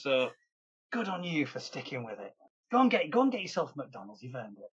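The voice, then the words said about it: Northern English accent. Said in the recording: “Thank you for putting up with my accent, everybody. I know the north of England can be a little bit tricky sometimes. ... British accents”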